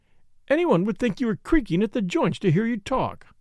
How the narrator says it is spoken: cried Flora, half vexed, half amused

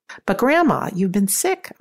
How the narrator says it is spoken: I exclaimed

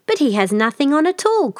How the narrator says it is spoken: cried at last the whole people

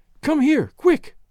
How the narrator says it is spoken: cried Daisy

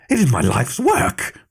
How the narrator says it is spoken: Montgaffer exclaimed, in fury

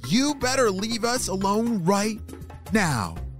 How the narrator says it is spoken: She shouted

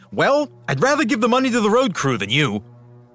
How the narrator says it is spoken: DeFreeze snapped back

